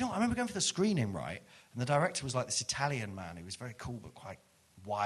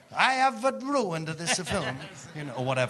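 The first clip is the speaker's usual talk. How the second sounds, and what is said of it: Poor put-on Italian accent. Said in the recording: “this Italian accent is not good”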